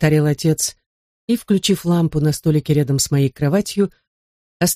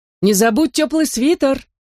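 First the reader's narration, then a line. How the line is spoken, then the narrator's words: Mother shouting. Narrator (Russian): закричала мама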